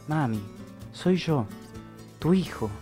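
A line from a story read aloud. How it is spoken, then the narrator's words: Slightly trembling voice. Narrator (Spanish): repitió con la voz apenas temblorosa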